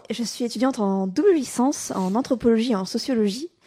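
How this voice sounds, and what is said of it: Southern French accent, Toulouse. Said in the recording (French): “comme vous avez subtilement pu l'entendre à l'accent du Sud, je viens de la meilleure ville de France, Toulouse”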